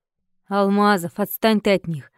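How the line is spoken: Grim, forced out. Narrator (Russian): мрачно выдавил капитан

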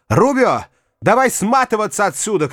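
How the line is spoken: Shout. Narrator (Russian): крикнула Лючия

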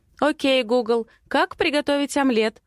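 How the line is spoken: Loud speech into phone. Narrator (Russian): Говорю громко в смартфон Матвея

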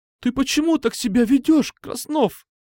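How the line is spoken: Breaking voice, sobbing. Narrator (Russian): Голос ее вдруг надломился, и она всхлипнула

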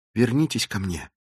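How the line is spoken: Whisper. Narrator (Russian): прошептала она

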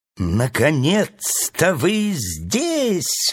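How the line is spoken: Joyful bird exclaiming. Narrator (Russian): радостно воскликнула птица

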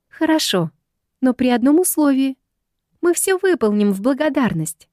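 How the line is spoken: Joyful answer. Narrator (Russian): радостно отвечает Ирен

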